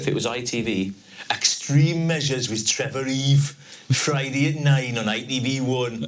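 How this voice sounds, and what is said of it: Geordie Newcastle accent. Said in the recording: “the Newcastle accent is so amazing ... That's the Geordie accent.”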